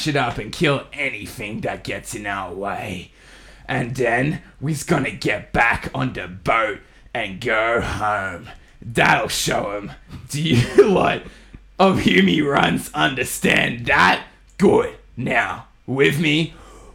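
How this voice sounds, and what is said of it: Put-on Australian accent, pirate character. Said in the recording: “That was the best Australian accent I could do.”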